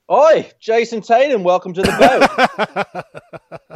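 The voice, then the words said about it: Bad put-on Australian accent. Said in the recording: “my terrible Australian accent”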